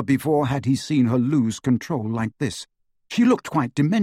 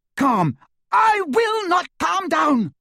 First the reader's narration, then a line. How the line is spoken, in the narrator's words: she screamed